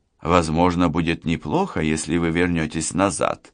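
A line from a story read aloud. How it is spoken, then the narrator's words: Soft. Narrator (Russian): мягко проговорила Лана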